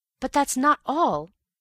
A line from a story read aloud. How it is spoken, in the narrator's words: I cried